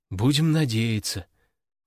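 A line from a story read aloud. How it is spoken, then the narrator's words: Resigned sigh. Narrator (Russian): обреченно вздохнул я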